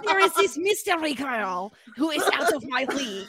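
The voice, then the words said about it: Put-on French accent. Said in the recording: “try that, but in a French accent, as if Charlie was French ... you're decent at French accents”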